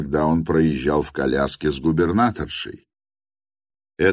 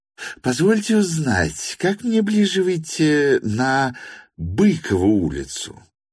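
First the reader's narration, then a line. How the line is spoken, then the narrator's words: Honeyed, slightly shrill voice. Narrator (Russian): медовым, хотя несколько крикливым голоском спросил меня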